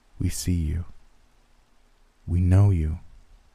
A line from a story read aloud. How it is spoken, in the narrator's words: a soft feminine voice whispered in my ear